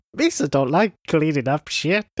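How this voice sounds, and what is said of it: Jar Jar Binks character voice. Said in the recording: “Do your Jar Jar voice.”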